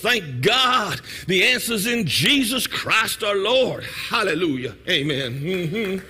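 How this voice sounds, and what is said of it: Preacher-style voice. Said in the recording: “in your best preacher voice.”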